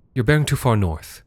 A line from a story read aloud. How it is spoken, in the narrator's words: she said